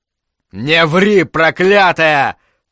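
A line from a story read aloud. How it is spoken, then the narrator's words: Shout. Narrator (Russian): крикнул Миклош Ракоци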